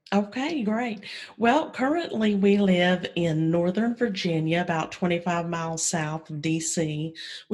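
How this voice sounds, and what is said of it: Southern US accent. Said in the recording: “your southern accent ... that's where I get my southern draw”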